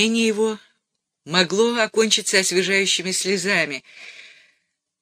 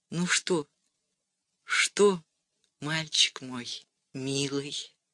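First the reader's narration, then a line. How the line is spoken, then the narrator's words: Barely audible mouthed question. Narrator (Russian): Валя спросила чуть слышно одними губами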